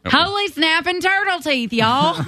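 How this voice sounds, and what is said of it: Exaggerated homespun Southern accent. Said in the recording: “you need to really lean into your southern accent, because I think it would sound very homespun ... Oh, it's perfect ... It is definitely a southern thing.”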